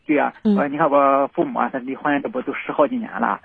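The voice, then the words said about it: Slight Shandong accent. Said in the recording (Chinese): “口语里边是有点山东口音啊”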